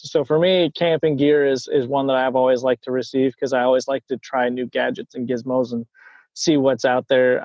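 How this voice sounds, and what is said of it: American accent. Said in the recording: “this accent ... it's the USA”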